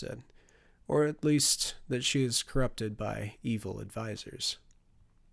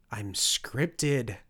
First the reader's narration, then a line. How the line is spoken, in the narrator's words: I moaned